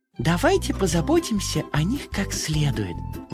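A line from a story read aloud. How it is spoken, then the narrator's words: Exclamation. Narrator (Russian): воскликнула Карамелька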